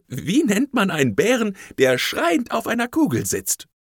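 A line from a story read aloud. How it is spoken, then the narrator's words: Boy asking with giggles. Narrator (German): Der gelbe Papierjunge fragte kichernd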